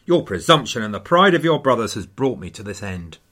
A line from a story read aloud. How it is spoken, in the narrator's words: says rather bitterly